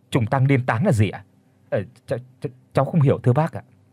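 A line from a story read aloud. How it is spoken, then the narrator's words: Frightened stammer. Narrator (Vietnamese): Ông Chí kinh hãi lắp bắp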